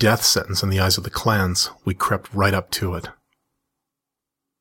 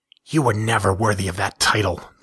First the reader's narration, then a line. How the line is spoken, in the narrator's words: the female spat